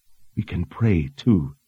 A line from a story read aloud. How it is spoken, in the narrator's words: she whispered, her eyes glistening with tears